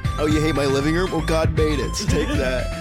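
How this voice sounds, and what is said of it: Laid-back surfer dude voice. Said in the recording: “surfer voice, dude”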